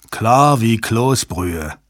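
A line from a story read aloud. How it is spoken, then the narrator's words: Groaned. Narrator (German): stöhnte Jabba auf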